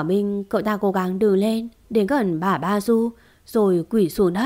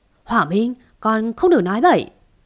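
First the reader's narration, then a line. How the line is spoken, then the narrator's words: Shouting scoldingly. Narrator (Vietnamese): Bà Ba Du quát lên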